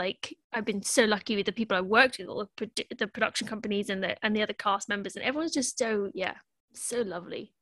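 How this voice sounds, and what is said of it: Childlike voice with an accent. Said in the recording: “what we would call your accent, but just your voice ... I also sound like a child”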